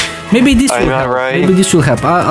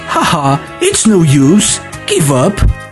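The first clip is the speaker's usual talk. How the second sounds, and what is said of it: Poorly imitated video game character voice. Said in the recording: “I'll read it with just the way I think it's in the game... That was horrible... I don't know how to do the voice, but I think the way the tone is actually similar”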